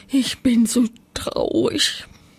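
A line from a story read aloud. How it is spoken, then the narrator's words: Sobbing. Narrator (German): schluchzt sie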